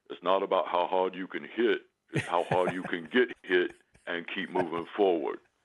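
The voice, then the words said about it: Imitates another person's voice. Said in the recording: “good Stallone impression”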